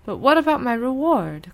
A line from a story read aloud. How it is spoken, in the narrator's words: called the crane anxiously